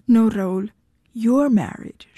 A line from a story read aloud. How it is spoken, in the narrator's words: she said